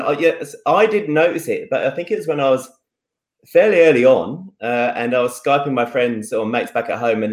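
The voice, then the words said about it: Speaks with an Australian-sounding accent. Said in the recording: “When did you start picking up the accent? ... I actually sound really, really Aussie”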